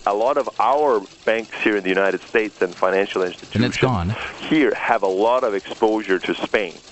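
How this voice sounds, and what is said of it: Slight unusual regional accent. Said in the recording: “What kind of accent is this? It sounds like he has a little bit of a weird sort of... ... sort of a Fargo thing ... some kind of a Scandinavian thing”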